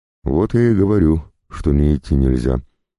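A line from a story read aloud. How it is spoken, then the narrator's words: Sighing. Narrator (Russian): вздохнул Григорий Ефимович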